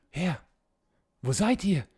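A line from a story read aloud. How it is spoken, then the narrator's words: Distant shout. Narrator (German): rief der Knappe von Weitem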